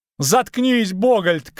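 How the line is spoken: Shouted. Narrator (Russian): крикнул Лютик

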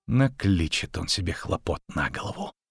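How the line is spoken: Hiss. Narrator (Russian): прошипела Йеннифер

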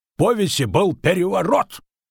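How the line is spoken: Barked. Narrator (Russian): рявкнул Андатор

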